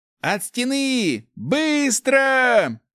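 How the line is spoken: Yelled. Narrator (Russian): заорал

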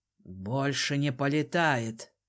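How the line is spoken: Gruff grumble. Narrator (Russian): буркнул Ринзод

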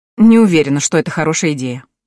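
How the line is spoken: Snorted. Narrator (Russian): хмыкнул

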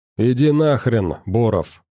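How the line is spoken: Young man growling. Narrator (Russian): рыкнул парень

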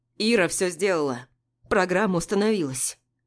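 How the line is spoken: Annoyingly cheerful friend. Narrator (Russian): Раздражающе бодро сообщает друг

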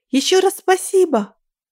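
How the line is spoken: Called out after. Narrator (Russian): крикнула она мне вслед

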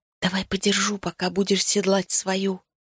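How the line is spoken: Whispered. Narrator (Russian): прошептала я

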